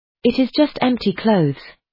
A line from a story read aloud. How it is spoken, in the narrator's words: announced in a shocked voice